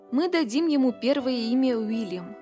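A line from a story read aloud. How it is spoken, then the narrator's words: Plain. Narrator (Russian): сказал он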